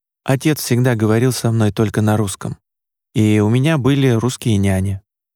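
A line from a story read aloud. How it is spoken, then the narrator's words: Careful, dry. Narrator (Russian): Тщательно следя за тем, что говорит, он сухо произнес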